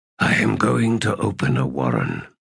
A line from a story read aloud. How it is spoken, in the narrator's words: he said in a low voice